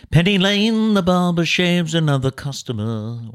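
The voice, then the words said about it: Put-on British accent while singing. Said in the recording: “Why do I always go to British accent?”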